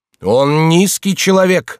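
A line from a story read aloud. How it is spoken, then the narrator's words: Passionate shout. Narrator (Russian): с жаром закричал Арно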